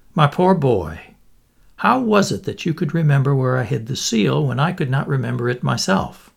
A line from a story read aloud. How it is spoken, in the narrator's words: The king said kindly